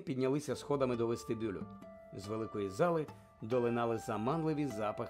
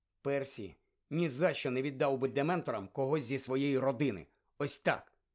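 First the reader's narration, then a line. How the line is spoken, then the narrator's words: Stern. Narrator (Ukrainian): суворо сказала Герміона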